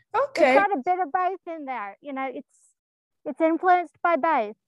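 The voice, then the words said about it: Irish American accent. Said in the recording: “an Irish American accent”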